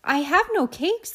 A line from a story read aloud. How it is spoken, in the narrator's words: the rabbit replied